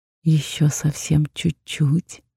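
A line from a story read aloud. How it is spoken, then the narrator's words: Insinuating whisper. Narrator (Russian): вкрадчиво прошептал он мне в ухо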